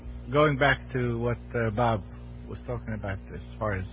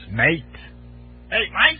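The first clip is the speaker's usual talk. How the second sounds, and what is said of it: Pirate character voice. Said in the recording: “is this your pirate imitation?”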